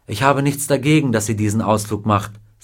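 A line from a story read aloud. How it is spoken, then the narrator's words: Plain. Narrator (German): sagte Mrs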